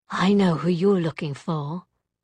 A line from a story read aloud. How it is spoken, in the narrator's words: she said